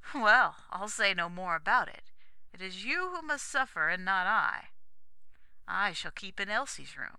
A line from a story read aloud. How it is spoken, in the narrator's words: added, half laughing